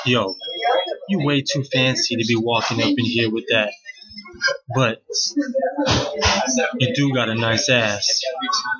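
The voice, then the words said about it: Exaggerated, deliberately bad New York accent. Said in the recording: “New York accent... this is probably a terrible New York accent, but I'm going to try anyway.”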